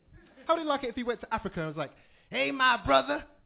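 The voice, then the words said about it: British accent. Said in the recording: “British homie ... Base this on my accent.”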